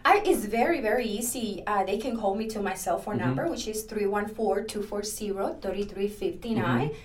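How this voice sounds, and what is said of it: Latina accent in English. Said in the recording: “I am a Latina. I have an accent.”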